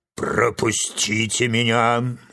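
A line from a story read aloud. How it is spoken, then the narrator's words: Lion's roaring bark. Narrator (Russian): рявкнул лев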